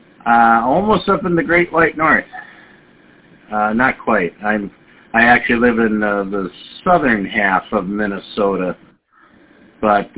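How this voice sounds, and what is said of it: Minnesota accent. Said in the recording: “I thought my accent would give it away. Minnesota.”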